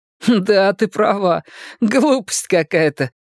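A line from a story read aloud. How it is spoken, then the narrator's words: Laughing. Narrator (Russian): рассмеялся мышь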